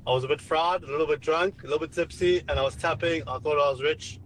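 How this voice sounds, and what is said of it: South African accent. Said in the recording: “You sound like South African. ... Yeah, you sound South African.”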